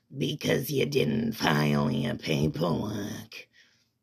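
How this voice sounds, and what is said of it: Cartoon slug lady character voice. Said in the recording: “impersonation or impression of Roz from Monsters, Inc., the giant slug lady that looks like a librarian with glasses”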